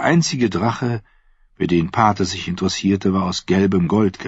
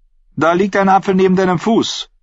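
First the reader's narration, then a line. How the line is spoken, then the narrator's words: Called out. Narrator (German): rief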